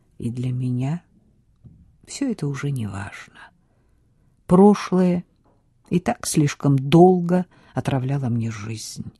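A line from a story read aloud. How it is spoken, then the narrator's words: Quiet. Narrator (Russian): тихо сказал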